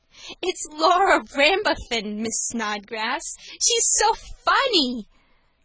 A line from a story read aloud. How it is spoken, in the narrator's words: spluttered the girl